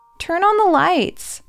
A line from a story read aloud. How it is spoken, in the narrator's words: Rosie whines